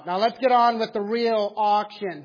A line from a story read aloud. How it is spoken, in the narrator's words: The man sitting in the second row shouted out